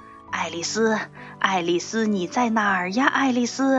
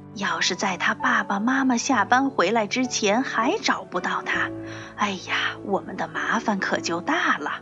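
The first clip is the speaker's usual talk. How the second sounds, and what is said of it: Whispered muttering. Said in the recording (Chinese): “小声嘀咕着说”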